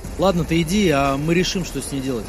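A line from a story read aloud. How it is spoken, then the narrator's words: Plain. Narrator (Russian): сказал Андрей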